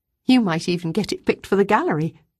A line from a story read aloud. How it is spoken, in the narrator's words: had said, through her giggles